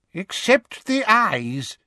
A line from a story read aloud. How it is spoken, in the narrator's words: said a wheezy-voiced, silver-haired wizard